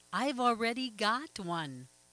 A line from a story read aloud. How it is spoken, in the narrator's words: yelled